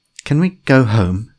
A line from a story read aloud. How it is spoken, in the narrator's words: said Colin, his voice shaking